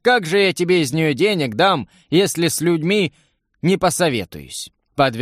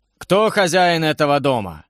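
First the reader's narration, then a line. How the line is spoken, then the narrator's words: Menacing question, stern warrior. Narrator (Russian): грозно спросил суровый воин со снегом в бороде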